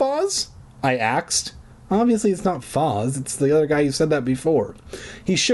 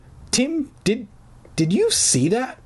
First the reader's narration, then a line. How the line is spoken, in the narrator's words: Foz stammered